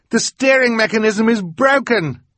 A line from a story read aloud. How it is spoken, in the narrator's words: yelled